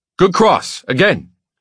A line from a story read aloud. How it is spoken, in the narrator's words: He shouts, his words a staccato